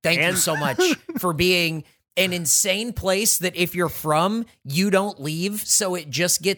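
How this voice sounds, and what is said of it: Usual voice. Nothing is said of it.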